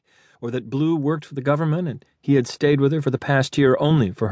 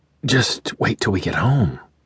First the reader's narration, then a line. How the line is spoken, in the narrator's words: whispered, hoping to soothe her